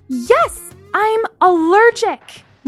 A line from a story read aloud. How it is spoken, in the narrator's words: Lana said furiously